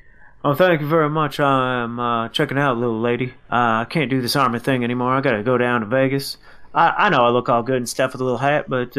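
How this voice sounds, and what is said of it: Rough imitation of Elvis-style voice. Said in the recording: “get your impression ready ... Elvis Presley ... My impersonation's still pretty bad. ... It's getting a little bit better. ... that almost sounded like Mr. Mackey at the end”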